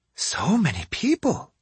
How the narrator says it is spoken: Yumiko murmured

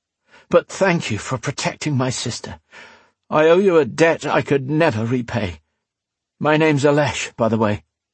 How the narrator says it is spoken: he panted, grinning widely

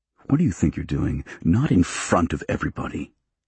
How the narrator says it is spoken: he hissed

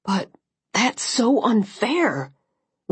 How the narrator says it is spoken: Liam said, his voice strained with a second wave of anger

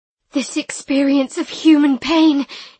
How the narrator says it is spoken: he said breathlessly

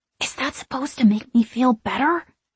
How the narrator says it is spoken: I hiss

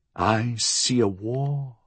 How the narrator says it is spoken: the medium had murmured

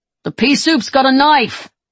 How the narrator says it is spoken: someone yells

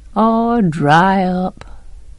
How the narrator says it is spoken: he answered drowsily

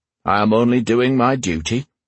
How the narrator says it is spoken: he replied stiffly

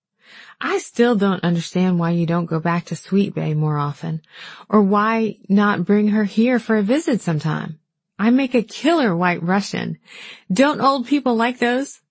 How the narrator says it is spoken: laughed

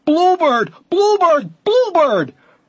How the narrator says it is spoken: as they spotted it, until everyone was shouting

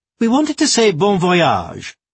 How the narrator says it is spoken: piped up the plump lady

